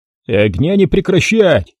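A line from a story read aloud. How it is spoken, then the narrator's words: Shouted. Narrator (Russian): крикнул Воронцов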